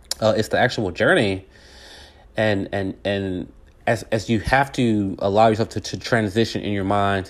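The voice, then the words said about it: Hoarse, strained voice. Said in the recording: “Man, I'm losing my voice here.”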